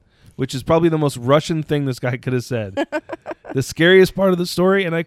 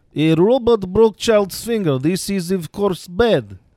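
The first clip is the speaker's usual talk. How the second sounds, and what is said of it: Put-on Russian accent. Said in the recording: “should I do this with a Russian accent?”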